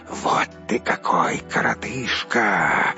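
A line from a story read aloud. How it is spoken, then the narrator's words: Hissing group. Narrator (Russian): зашипели они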